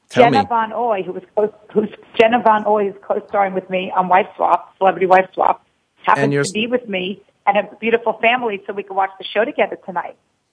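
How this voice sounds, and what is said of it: Hoarse, weakened voice. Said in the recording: “I lost my voice”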